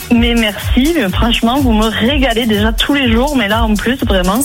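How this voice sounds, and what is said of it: Toulouse regional French accent. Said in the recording (French): “Ça, c'est l'accent toulousain.”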